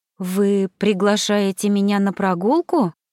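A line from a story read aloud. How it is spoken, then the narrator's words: Surprised question. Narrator (Russian): переспросила она таким удивленным тоном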